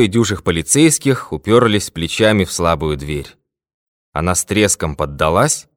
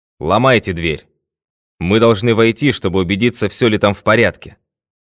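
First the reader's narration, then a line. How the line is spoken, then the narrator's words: Loud command. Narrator (Russian): Пинкертон громко приказал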